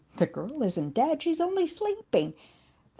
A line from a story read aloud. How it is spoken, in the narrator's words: Jesus proclaimed